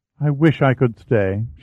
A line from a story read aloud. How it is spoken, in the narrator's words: said wistfully